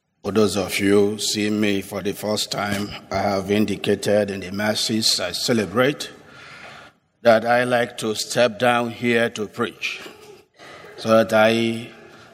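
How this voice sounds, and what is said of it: Nigerian-accented English. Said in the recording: “you will get my accent ... my accent is somehow corrupted ... They would say he speaks with accent. I'm originally from Nigeria ... Father, you speak with accent.”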